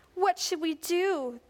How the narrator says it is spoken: the king of Israel cried out

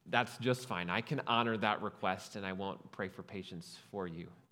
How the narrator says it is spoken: I quietly said

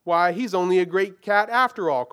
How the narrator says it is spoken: cried one

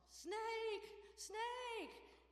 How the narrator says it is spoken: he started screaming into his snorkel

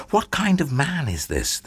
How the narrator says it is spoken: They asked themselves anxiously

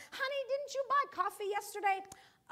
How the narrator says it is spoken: He yells up to his wife

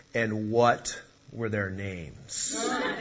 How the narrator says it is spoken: he commanded in a very heavy voice

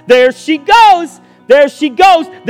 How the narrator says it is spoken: voices on the other side ready to take up the glad shout

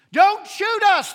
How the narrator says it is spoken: the youth leader shouted

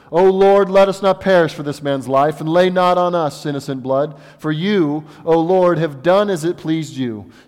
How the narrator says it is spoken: they called out to the Lord

